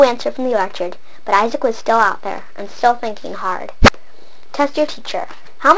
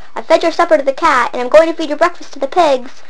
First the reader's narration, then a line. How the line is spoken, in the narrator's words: yelled